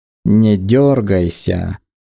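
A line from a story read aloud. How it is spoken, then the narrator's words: Mocking warning. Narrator (Russian): предупредил он насмешливо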